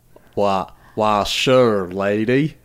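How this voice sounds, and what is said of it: Put-on Southern drawl. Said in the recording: “Can you do like a southern drawl ... Are you Forrest Gump right now? ... He's a southern drawer.”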